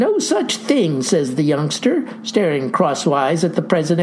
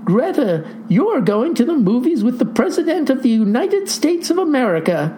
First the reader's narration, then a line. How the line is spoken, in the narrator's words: Mama says happily